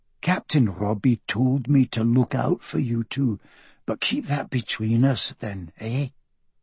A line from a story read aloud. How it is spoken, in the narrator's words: he said quietly